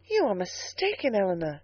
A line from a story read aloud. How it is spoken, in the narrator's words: said she warmly